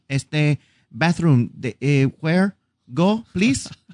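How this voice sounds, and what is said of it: Mock Mexican-accented broken English. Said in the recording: “When I speak Spanish, I sound like that Mexican couple that come to Disney.”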